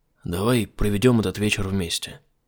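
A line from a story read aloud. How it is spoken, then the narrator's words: Whispered. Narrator (Russian): шепнул он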